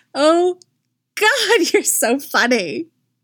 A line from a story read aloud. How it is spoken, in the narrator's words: she giggles and says